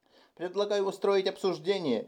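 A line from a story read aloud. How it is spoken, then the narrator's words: Squeak. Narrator (Russian): пискнул Линис, тарак солидных лет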